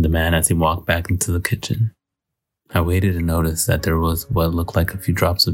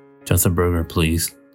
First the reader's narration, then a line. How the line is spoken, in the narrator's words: I replied